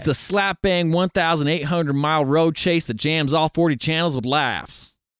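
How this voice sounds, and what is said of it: Put-on accent. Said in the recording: “I tried to do it in a good accent.”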